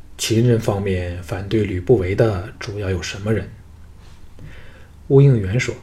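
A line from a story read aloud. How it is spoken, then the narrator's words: Deep, grave voice. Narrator (Chinese): 藤毅沉声说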